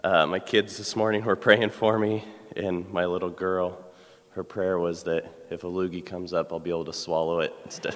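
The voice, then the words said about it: Voice affected by illness. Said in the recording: “Sorry about my voice. I'm a little under the weather here.”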